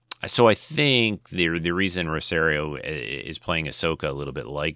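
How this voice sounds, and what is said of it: Usual voice. Nothing is said of it.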